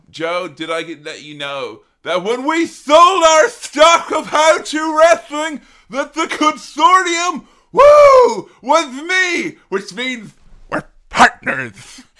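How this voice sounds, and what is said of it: Ric Flair impression. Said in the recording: “your Ric Flair is very good ... your Ric”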